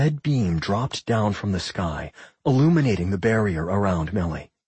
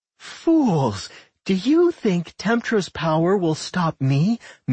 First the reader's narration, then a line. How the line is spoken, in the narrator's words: Milda giggled